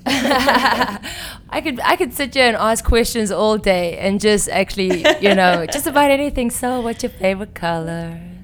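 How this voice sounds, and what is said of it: Striking, pleasant accent. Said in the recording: “that incredible accent you have, really, I could listen to it all day long”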